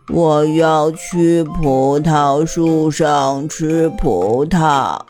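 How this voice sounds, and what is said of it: Very slow drawn-out speech. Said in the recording (Chinese): “蜗牛用很慢很慢的声音说”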